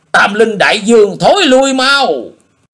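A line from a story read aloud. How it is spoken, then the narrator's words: Loud shout. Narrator (Vietnamese): Nhị đầu thái tử thét lớn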